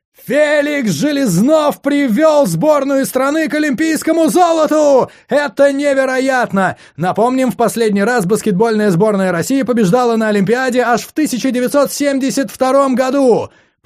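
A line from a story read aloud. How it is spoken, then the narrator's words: Shouting commentator. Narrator (Russian): прокричал комментатор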